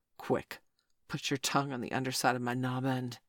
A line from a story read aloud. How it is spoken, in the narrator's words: he gasped